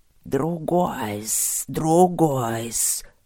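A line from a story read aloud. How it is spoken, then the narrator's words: Excited hissing from corners. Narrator (Russian): возбужденно зашипели сомнарисы из углов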